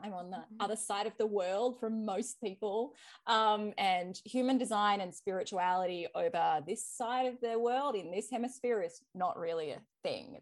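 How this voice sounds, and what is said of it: Australian accent. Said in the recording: “If you haven't picked it up from my accent, I am Australian.”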